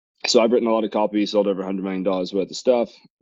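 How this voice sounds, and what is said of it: Non-American accent. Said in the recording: “there's no fucking way you have an accent, bro. You're American.”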